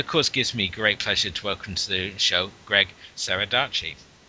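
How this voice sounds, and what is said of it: British accent. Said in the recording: “I felt like I'm on BBC News right now ... Your accent helps ... having a British accent just makes everything seem a lot more classier”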